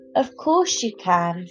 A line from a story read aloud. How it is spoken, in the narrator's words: said Mum